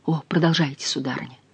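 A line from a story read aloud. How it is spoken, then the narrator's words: Moaning. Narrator (Russian): простонал он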